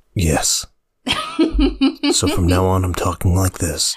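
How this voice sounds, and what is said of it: Soft put-on podcast voice. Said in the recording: “I'm working on my podcast voice ... You're working on your soft, sweaty balls podcast voice?”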